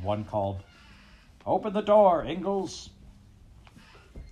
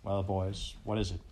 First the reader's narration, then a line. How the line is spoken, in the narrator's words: He asked quietly